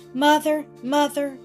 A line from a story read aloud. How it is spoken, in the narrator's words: cried the girl